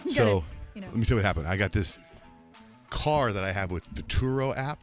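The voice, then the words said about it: Out of breath, panting speech. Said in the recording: “I'm so out of breath right now.”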